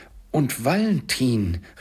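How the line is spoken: Calling out. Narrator (German): rief Scrooge

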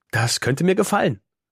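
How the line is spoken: Laughing. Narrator (German): sagt Karima und lacht

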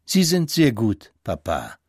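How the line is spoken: Plain woman's voice. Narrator (German): sagte die Konsulin

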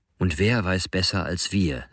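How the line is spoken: Plain. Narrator (German): sagte er wieder

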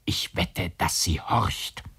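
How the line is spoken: Whispered. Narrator (German): flüsterte

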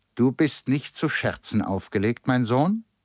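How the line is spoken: Plain. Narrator (German): sagte er

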